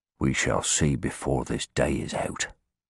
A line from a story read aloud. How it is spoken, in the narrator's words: Harsnett answered grimly